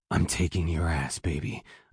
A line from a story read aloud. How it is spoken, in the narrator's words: I whisper roughly